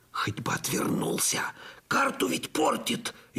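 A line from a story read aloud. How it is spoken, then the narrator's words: Fearful moan. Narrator (Russian): ежась от страха простонал я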